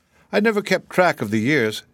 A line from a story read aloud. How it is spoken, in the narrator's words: said Miss Cuttenclip, laughing